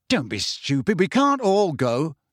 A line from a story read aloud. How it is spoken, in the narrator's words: said Harry angrily